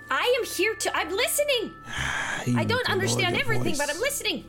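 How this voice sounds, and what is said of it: Loud, shouting voice. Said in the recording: “Lower your voice.”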